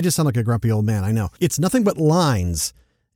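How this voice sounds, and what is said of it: Usual voice. Nothing is said of it.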